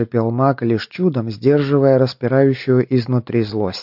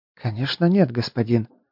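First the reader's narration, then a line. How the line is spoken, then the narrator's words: Frightened woman's mumble. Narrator (Russian): испуганно пробормотала женщина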